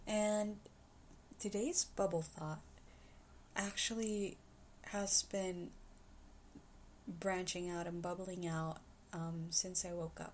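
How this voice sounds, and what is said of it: Sore-throated voice that may crack. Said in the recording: “I have a bit of a sore throat, so my voice is probably gonna crack in some places and not gonna sound like it normally does”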